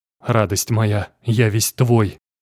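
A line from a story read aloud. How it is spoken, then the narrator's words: Hoarse, highly aroused breath. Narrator (Russian): сипло выдохнул он, придя в невероятно сильное возбуждение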